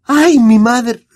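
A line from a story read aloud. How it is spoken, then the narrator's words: Exclaiming. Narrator (Spanish): exclamó Hermione, aferrándose al brazo de Harry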